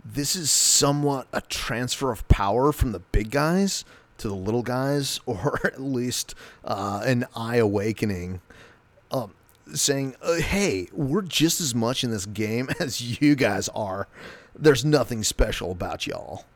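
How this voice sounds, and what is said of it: Laid-back cool dude voice. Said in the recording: “give him a cool dude voice.”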